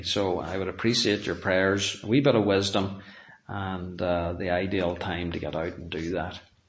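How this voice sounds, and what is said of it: Worn-out, strained voice. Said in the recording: “Speaking twice on a Sunday, my voice is done”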